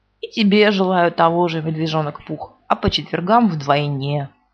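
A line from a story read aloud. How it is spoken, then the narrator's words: Gloomy. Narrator (Russian): уныло сказал Иа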